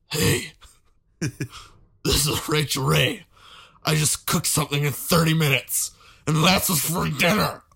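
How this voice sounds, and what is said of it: Husky voice turning furious, gruff. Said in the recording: “my Rachel Ray impression ... It started out ... husky, ... and got to this like furious 300 pound man impression.”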